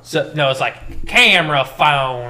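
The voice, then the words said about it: Cartoon character voice, southern drawl. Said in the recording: “it's got that southern accent ... Why does it have a southern drawl?”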